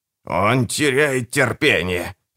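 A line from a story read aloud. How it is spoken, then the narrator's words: Witch snapping, raised voice. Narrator (Russian): огрызнулась ведьма, повышая голос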